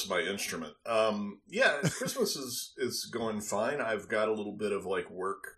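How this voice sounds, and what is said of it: Usual voice. Nothing is said of it.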